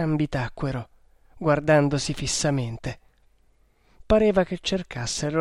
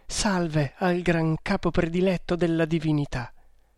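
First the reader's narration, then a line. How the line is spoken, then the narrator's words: Trembling voice. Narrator (Italian): rispose Ada con voce tremante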